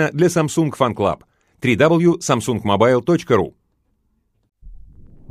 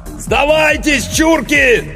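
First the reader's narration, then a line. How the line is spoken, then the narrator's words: Bellowed through megaphone. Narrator (Russian): заорал Иванов в мегафон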